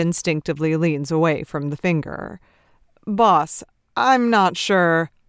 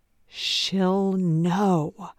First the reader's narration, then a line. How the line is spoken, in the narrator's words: says Nate, keeping his voice down